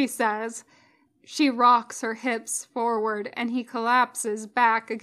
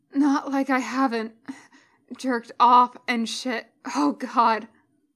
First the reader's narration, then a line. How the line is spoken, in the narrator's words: he gasps as she continues to rock into him